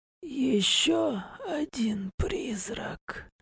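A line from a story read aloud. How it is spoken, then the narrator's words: Hoarse whisper, wounded man. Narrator (Russian): сипло прошептал мужчина, тот самый с раной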